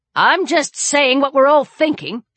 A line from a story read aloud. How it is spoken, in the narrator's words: Sharon snapped